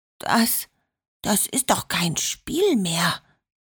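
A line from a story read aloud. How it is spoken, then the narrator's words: Murmur. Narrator (German): murmelte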